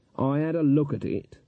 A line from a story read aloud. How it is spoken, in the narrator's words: said Granny coldly